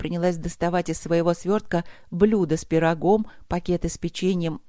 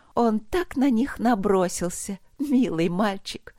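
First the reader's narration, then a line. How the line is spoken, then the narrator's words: Giggling. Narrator (Russian): хихикнула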